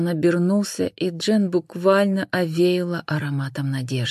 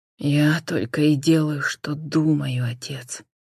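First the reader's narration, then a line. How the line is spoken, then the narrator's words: Quiet reply. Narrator (Russian): негромко отозвался Джон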